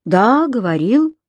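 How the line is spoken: Joyful agreement. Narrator (Russian): согласился Юнатан, и голос его при этом зазвучал радостно

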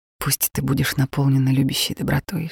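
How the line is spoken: Whisper. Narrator (Russian): шептал он

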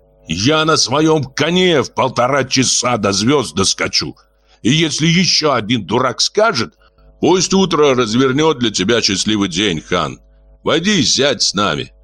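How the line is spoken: Shouting. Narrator (Russian): Дмитриев кричал

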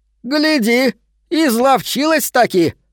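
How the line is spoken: Shouted from a crowd. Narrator (Russian): крикнул кто-то из нищих

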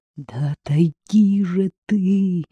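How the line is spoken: Pleading whisper. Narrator (Russian): прошептал Артем умоляюще

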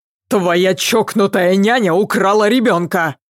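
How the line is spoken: Father's angry bark. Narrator (Russian): рявкнул отец

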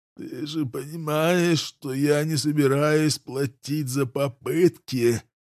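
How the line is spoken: Hissing through teeth. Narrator (Russian): Процедил, как змея

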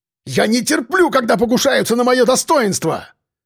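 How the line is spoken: Barked. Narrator (Russian): рявкнул Крюков

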